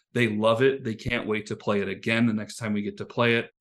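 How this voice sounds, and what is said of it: Excited, effusive speaking voice. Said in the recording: “the genuine excitement... You can hear it in his voice... he just was effusive”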